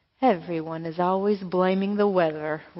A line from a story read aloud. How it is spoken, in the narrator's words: rumbled the cloud